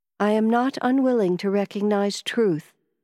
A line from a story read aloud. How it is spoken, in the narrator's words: I said